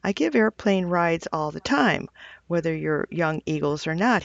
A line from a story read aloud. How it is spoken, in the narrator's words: he said